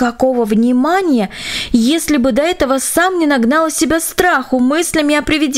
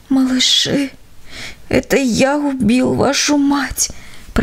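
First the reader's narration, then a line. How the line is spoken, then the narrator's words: Whispered. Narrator (Russian): прошептал он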